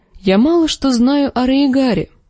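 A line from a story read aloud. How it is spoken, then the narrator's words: Plain. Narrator (Russian): сказала Дэнни Арстану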